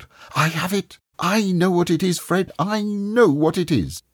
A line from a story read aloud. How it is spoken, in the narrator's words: his sister cried out